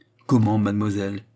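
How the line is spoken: Plain. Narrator (French): dit Tavernet

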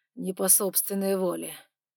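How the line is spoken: Rasped. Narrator (Russian): прохрипел

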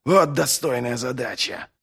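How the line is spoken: Hissed. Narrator (Russian): прошипел Доу

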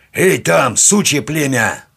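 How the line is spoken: Officer's barking shout. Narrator (Russian): рявкнул урядник в темноту

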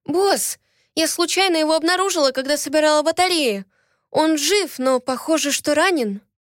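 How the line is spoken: Agitated, anxious. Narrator (Russian): взволнованно заговорила я

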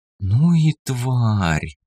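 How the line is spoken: Disgusted drawl. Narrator (Russian): протянула лиса с омерзением

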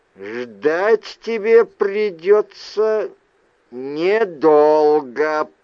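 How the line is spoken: Through gritted teeth. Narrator (Russian): процедил мой сводный брат

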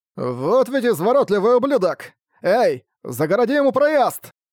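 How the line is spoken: Shout. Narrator (Russian): прокричал один из магов

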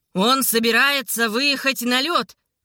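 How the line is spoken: Shouted. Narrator (Russian): крикнул Александр

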